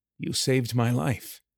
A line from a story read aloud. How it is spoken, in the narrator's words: Kieran said quietly